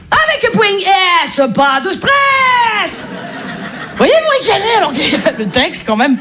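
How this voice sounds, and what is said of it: Marseille French accent. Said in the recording (French): “je suis marseillaise ... l'accent marseillais”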